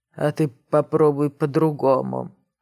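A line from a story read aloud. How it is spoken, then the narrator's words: Drunken mutter. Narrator (Russian): пьяно пробормотал он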